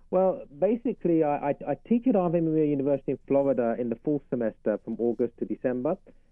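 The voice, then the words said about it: Southern US English accent. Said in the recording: “by your accent that you live in South Carolina ... it's a southern accent, southern English”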